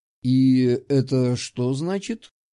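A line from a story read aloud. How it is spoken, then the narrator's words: Grumbled. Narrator (Russian): буркнул он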